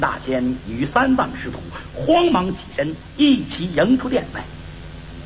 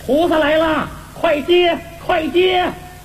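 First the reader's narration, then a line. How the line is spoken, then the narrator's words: Calling out. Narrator (Chinese): 悟空叫道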